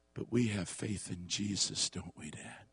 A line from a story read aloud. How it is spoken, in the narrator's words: whispered